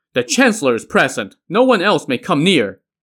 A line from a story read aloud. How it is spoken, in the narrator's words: the rebel soldiers shouted